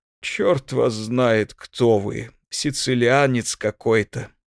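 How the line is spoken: Sleepy. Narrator (Russian): сказал он сонно

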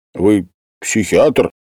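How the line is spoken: Rude question. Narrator (Russian): спросил грубо Васильев

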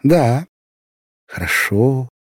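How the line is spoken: Quiet reply. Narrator (Russian): так же тихо отвечала она

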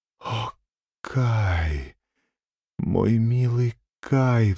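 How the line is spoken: Sighing. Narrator (Russian): вздохнула Герда

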